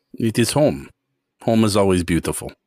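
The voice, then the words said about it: Eastern European Russian accent. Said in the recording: “I can tell by the accent that you're from the eastern part of Europe. I'm Russian, I'm assuming.”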